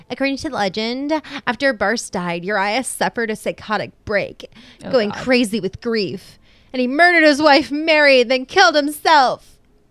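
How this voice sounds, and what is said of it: Obnoxious, exaggerated storytelling voice. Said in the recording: “I'm going to say this in a really obnoxious voice.”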